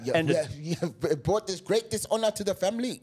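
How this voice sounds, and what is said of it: Put-on foreign accent. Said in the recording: “I don't know where that accent just came from.”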